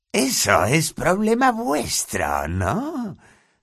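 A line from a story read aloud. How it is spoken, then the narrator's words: Gleeful, beaming voice. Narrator (Spanish): dijo Filch con voz radiante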